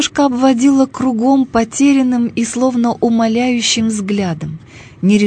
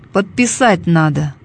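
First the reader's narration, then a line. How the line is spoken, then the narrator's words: Flat impassive report. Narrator (Russian): доложил он бесстрастным тоном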